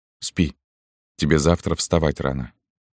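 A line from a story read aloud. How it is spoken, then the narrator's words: Quiet speech. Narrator (Russian): И он тихо говорил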